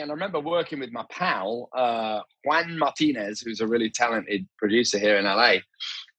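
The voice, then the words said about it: Faded Leeds English accent. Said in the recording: “I'm originally from Leeds, even though my accent is a little bit kind of smashed to pieces now.”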